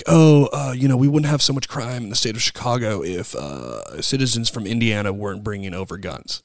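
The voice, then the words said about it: Imitates another person's voice. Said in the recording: “That's a good Beto impression... That sounded like Beto... Dude, you sound just like him.”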